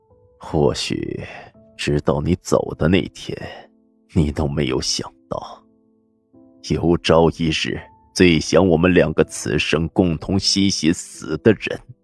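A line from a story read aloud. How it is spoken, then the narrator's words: Sighing. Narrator (Chinese): 沈长坑叹了口气说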